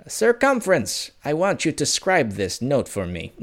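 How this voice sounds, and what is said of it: Attempted medieval-style accent. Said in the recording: “the accent is not medieval at all, but whatever, I'll work on it”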